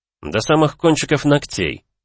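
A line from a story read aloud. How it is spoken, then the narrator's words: Exclaimed. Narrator (Russian): воскликнул маг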